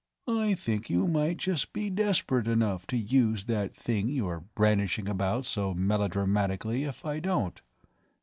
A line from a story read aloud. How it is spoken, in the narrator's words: he remarked in a calm, conversational tone